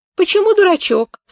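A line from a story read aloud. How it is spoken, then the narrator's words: Offended question. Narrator (Russian): спросил обиженно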